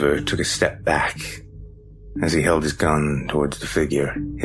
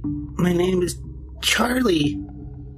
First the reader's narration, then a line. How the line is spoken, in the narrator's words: replied timidly, speaking in the voice of a small child